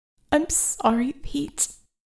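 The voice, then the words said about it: Forced whisper. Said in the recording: “forcing my voice to a whisper.”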